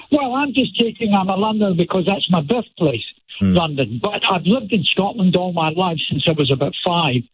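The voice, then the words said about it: Scottish accent. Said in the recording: “I'm a Londoner with a Scots accent.”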